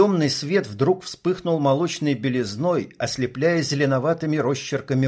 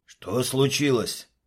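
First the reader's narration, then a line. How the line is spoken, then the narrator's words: Whispered. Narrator (Russian): прошептал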